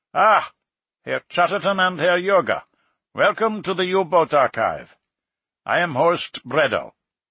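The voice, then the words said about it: Heavy German accent. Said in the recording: “said in a heavy German accent”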